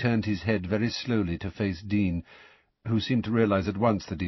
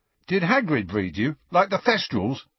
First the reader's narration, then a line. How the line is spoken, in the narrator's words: asked Dean eagerly